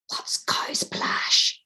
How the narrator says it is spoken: Aoife whispered

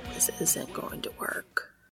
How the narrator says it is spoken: Cass whispers

